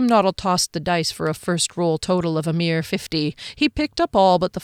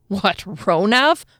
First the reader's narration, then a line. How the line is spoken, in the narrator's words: Harley snorted